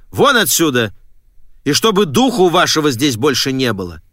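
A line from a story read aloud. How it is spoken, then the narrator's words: Sharp shout. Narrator (Russian): Мистер Келли прикрикнул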